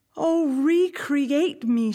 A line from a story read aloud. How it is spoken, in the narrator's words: cried